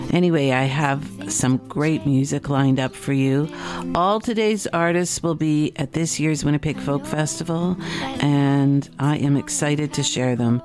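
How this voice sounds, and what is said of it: Slightly rough voice. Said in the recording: “my voice is a little, rough because I have seasonal allergies”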